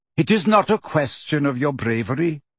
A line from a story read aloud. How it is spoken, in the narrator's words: said Ferenczi